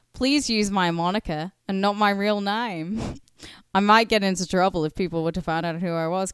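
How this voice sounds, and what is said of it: Imperfect put-on Australian accent. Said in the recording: “I have had a few beers. My Australian accent is usually a lot better”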